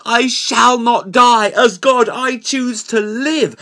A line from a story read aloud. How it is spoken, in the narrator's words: he screamed